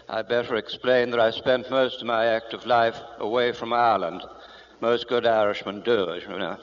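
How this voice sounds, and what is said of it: Rather English accent, Irish speaker. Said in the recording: “my accent. It's a little different from yours ... a rather English accent”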